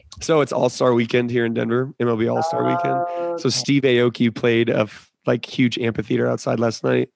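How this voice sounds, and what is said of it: Hoarse voice. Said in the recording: “My voice is a little hoarse. ... it's ... Monday voice. ... I lose my fucking voice every weekend.”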